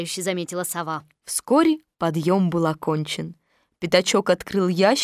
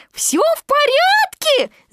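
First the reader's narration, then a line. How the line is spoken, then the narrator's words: Shouting through crack. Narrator (Russian): закричал он в щель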